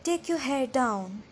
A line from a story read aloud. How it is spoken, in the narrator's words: Edward said in a low, even voice